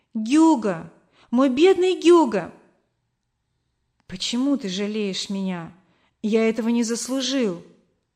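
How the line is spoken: Mother exclaiming. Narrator (Russian): мама воскликнула

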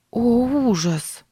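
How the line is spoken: Horrified breathless gasp. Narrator (Russian): выдохнула Сара в ужасе от услышанного

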